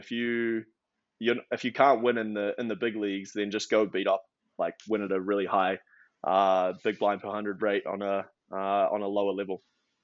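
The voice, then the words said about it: New Zealand accent. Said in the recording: “You're speaking with what I would call an accent ... From New Zealand originally ... by way of Australia”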